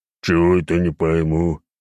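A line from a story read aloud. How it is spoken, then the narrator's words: Deep bass voice. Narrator (Russian): пробасил 306-й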